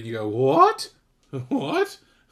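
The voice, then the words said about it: Voice like a cartoon woman. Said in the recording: “I sounded a bit like the woman from the Tom and Jerry cartoons.”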